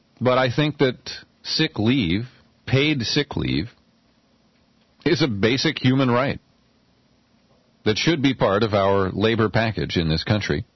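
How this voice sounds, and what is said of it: Voice sounding sick with cold. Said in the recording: “if you hear my voice, I'm working through a cold right now, and my voice is kind of”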